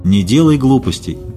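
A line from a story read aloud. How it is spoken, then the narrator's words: Calm. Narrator (Russian): сказал Хлюст спокойно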